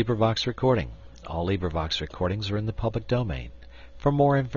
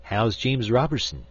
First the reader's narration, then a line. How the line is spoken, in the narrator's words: he said